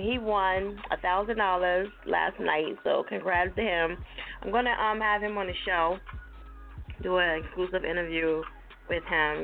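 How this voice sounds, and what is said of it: New Jersey accent. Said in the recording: “You know I got that Jersey accent”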